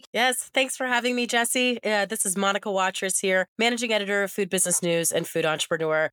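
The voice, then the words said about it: Raspy voice. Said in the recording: “pardon my raspy voice, I'm recovering from COVID”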